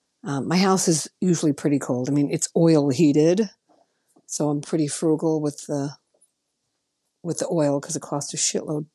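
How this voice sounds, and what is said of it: Congested, rough voice. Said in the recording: “Pardon my voice today ... I start to sound like Dr. Fauci when I'm talking, like, I have a bit of a cold.”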